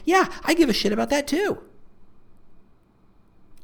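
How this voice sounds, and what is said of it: Suddenly very high-pitched voice. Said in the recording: “my voice got so high there... Turned into a bit of a dolphin there.”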